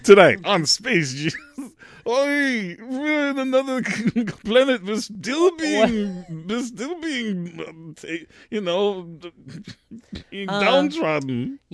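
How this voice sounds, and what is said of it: Stereotyped Jewish voice impression. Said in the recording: “That was my Jewish impersonation.”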